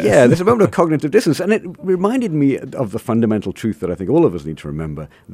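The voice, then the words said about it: British accent. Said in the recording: “this British accent would come out”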